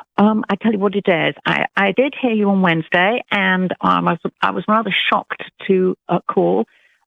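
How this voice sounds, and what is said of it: British English accent. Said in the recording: “you don't sound like you're from Alabama... I'm British... Did you hear a British accent or an Alabama accent?... I love her accent... I love an English accent also”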